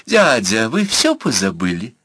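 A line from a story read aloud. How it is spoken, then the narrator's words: Deliberately capricious cooing, girl. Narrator (Russian): нарочито капризным голосом проворковала девушка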